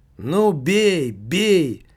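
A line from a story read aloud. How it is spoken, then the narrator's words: Very loud shout. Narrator (Russian): закричал Немаркетинг настолько громко, что, конечно, в лобби его крик расслышали абсолютно все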